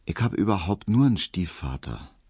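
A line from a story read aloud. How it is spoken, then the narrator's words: Soft. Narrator (German): sagte Hedwig leise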